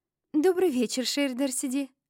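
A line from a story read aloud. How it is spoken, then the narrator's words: Intrigued cooing. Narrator (Russian): Проворковали они заинтригованно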